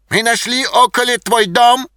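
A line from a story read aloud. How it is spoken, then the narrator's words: Shouting. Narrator (Russian): кричал немец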